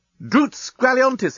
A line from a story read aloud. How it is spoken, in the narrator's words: he exclaimed